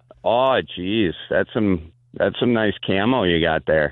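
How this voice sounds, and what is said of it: Stereotyped gay Wisconsin accent. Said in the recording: “Now you get to do an impression of a gay guy ... A gay guy from Wisconsin. ... I love the gay guy from Wisconsin.”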